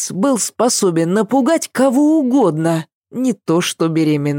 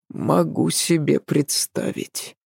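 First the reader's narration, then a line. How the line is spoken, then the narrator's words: Resigned mutter. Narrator (Russian): обреченно пробормотал Адам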